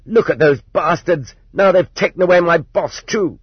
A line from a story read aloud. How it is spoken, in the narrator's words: The merchandise manager shouted